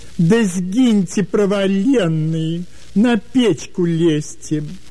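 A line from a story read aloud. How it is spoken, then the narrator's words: Habitual, good-natured shouting. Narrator (Russian): Беззлобно, по привычке, кричали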